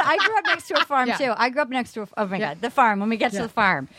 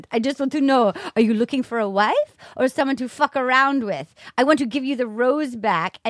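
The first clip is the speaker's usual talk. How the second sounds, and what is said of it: Put-on accent imitating someone. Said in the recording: “I can do a beautiful accent.”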